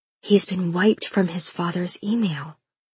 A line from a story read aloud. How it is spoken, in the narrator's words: whispered Martha